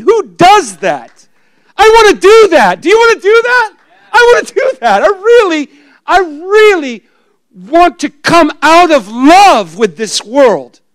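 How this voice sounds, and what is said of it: Yelling loudly. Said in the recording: “I'm yelling.”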